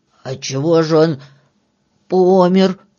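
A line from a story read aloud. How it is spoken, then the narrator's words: Hoarse question. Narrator (Russian): хрипло спросил Филька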